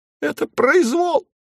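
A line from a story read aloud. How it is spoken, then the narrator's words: Weak squeak. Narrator (Russian): слабо пискнул Говорун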